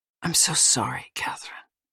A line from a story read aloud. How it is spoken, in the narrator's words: he whispered in her ear